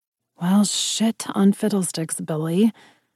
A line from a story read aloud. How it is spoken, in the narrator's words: I mumbled